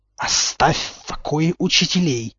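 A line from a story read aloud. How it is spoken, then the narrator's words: Angry hiss. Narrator (Russian): Гермиона шипела, как сгоревшая сковородка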